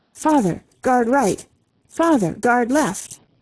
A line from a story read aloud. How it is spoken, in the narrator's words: his son Philip, a brave boy of 13 years, cried unceasingly